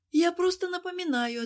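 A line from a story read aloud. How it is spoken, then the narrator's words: Exaggerated heavy sigh. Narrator (Russian): ответила она, нарочито тяжело вздохнув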